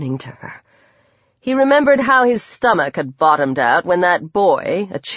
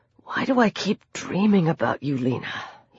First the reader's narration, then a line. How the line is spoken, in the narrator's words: He whispered